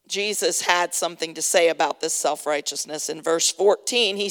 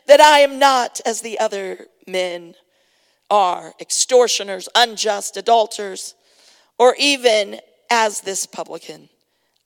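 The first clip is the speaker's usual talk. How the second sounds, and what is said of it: Dramatic reading voice. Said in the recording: “I always go into that dramatic voice when I read this”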